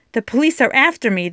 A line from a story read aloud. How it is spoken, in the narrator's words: the man blurted out